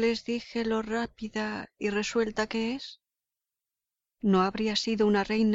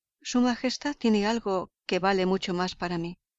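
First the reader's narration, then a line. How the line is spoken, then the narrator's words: Plain. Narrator (Spanish): dijo Holmes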